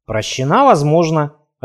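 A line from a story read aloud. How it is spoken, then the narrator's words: Growling. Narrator (Russian): рыкнул брат Михаил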